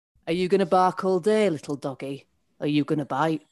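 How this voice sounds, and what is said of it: Sean Bean impression, Yorkshire accent. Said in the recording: “in the style of Sean Bean ... You nailed Sean's accent.”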